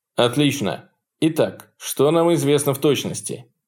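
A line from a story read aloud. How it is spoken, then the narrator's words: Clipped but clear. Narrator (Russian): Отрывисто, но четко прозвучал голос Сарнова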